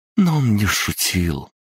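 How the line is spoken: Glum admission. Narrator (Russian): уныло призналась Пупс

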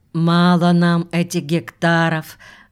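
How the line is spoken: Sighing. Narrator (Russian): вздохнула Савельдева

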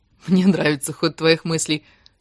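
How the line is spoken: Laughing. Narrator (Russian): хохотнула Кира

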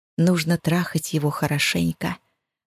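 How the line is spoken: Whisper. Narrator (Russian): зашептала Лиля

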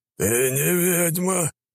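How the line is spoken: Rough male-sounding voice. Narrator (Russian): сказала она грубым мужским голосом

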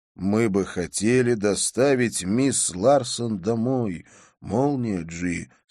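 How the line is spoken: Plain. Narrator (Russian): сказал я

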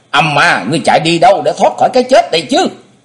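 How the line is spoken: Screaming. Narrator (Vietnamese): Thế Hùng thét lên

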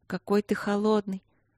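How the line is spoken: Sleepy murmur. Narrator (Russian): сонно пробормотала Василина

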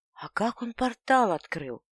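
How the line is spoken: Quiet frightened voice. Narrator (Russian): Голос ее звучал тихо и испуганно

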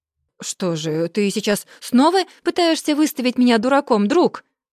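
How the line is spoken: Roar. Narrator (Russian): взревел первый

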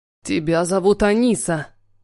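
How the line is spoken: Growling. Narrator (Russian): Прорычал он

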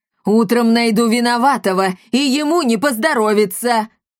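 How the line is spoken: Shouting woman. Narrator (Russian): крикнула комендантша Каптильда

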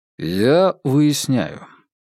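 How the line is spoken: Calm. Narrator (Russian): спокойно произнес

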